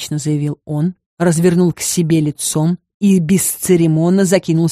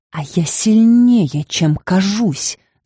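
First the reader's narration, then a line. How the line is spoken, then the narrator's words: Hissing like a snake. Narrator (Russian): Зашипела змеей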